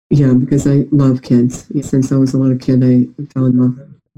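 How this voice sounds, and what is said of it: Nasal New York-sounding accent. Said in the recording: “you kind of have that drawl ... I'm actually finishing being sick, so I'm more nasally ... a lot of people say I sound like a New Yorker ... you do sound like a New Yorker”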